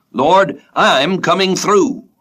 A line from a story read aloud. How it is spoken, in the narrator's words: shout